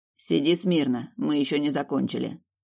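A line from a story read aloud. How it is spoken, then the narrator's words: Stern. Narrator (Russian): строго произнес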